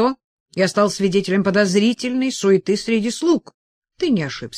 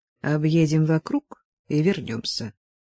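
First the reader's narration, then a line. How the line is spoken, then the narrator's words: Whispered in ear. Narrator (Russian): Гансевиль шепнул на ухо господину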